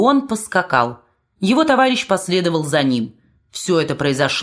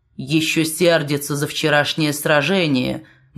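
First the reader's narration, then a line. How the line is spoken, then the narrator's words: Gloomy sergeant-major. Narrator (Russian): мрачно сказал вахмистр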